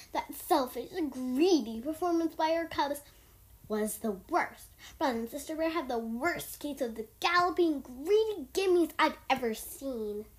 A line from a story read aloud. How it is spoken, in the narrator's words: he roared